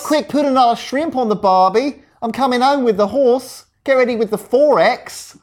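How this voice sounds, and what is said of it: Bad put-on Australian accent. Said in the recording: “That's some bad accents. That's some bad accents.”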